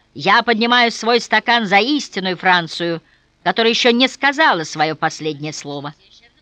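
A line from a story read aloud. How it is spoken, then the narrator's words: Old man's sudden loud shout. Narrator (Russian): Один из них, седой, вдруг громко выкрикнул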